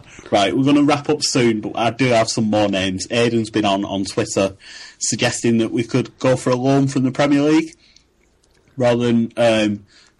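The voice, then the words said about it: Northern English hybrid accent. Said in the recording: “my accent, my northeast northwest hybrid, has been described as incredible”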